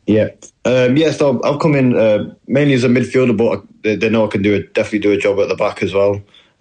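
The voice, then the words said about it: Northern English accent. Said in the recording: “sound very northern”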